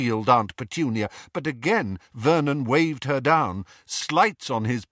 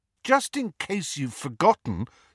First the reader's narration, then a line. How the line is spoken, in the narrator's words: said Harry